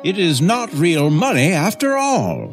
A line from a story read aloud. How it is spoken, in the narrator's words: cried the man